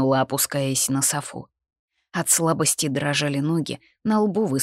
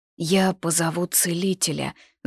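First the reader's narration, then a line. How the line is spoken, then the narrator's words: Icy frozen tone. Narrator (Russian): замороженным тоном вымолвила София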